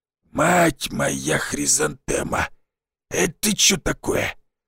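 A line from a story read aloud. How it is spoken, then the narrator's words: Old man's wheeze. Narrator (Russian): седой старик … просипел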